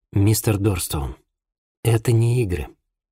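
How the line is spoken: Sad. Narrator (Russian): печально сказал Винсент

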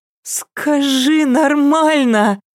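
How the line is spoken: Pleading. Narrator (Russian): взмолилась Лена

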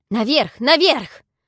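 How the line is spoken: Shouted. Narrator (Russian): Это он крикнул

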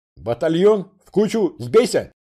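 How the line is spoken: Yelling, straining throat. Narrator (Russian): завопил я, надсаживая глотку

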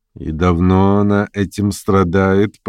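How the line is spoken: Drawling. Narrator (Russian): протянула несколько Варвара Петровна

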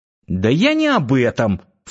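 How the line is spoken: Young woman snorting. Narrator (Russian): фыркнула девушка

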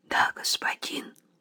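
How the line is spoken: Quiet young man. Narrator (Russian): так же тихо ответил юноша

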